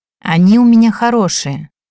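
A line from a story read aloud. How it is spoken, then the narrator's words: Encouraging tone. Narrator (Russian): ободряющим тоном повествовала Мартиша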